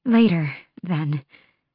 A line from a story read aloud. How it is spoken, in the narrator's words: she breathed